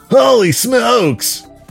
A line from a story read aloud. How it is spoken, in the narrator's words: yelled